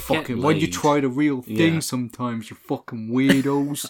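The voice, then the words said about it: Imitates a film character's voice. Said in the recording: “I love your Glazer impression.”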